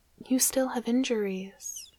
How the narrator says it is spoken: she breathed, trembling voice betraying her fear

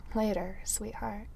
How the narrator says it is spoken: Tony murmurs something about

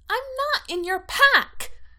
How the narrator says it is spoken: she says furiously

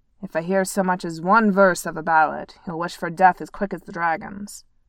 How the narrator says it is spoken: he grumbled

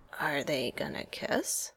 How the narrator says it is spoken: Sam asked Steve in a whisper

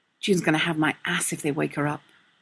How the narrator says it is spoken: Burke muttered

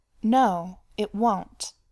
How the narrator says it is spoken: Bilbo said firmly

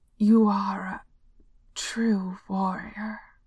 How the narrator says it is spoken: he gasped, choking the words out somehow

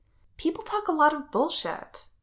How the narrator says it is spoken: Wen Qing says, sharply

